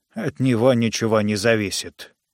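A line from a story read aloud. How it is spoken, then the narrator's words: Mutter. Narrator (Russian): пробормотал фон Фогельзанг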